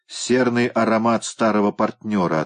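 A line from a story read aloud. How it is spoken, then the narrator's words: Plain. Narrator (Russian): ответила та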